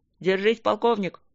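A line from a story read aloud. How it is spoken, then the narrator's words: Creaky radio voice. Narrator (Russian): проскрипела рация голосом Тедуса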